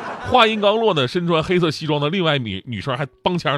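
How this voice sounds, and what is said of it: Usual voice. Nothing is said of it.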